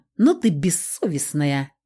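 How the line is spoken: Displeased snort. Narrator (Russian): недовольно фыркнул Болотник

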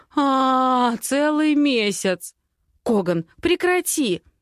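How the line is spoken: Laughing. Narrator (Russian): Смеясь

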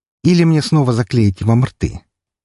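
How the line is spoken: Gentle tone. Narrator (Russian): я спросил ласковым тоном

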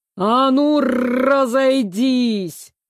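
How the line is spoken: Sudden growling bark. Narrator (Russian): гаркнул вдруг ирейский принц с характерным рычанием

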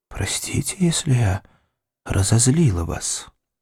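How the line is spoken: Quiet reply. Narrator (Russian): Меган тихо ответила

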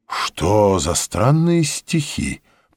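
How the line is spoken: Muttering. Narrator (Russian): пробормотал академик

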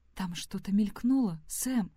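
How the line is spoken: Whisper. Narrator (Russian): прошептала та

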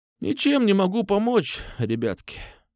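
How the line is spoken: Sigh. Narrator (Russian): вздохнула она

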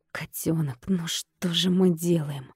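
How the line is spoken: Desperate whisper. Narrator (Russian): Прошептал он отчаянно

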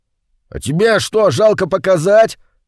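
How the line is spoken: Snapping retort. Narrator (Russian): огрызнулся Сережка

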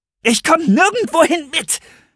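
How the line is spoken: Hissing. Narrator (German): fauchte Serenity

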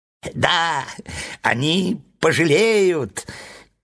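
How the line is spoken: Squeak. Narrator (Russian): пискнул клоун

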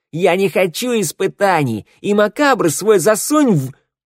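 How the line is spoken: Startled shout. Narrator (Russian): Рядом стоящее зеркало вздрогнуло и закричало

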